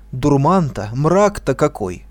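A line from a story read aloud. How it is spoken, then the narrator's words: Exclaiming. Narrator (Russian): воскликнул он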